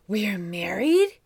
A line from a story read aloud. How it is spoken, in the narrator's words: exclaimed with disturbed wonder